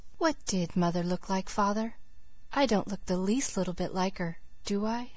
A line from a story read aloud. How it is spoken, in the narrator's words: the Story Girl said, still very softly